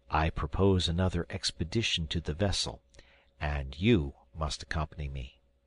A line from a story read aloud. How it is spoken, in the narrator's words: I added in a low tone, lest I should distress my wife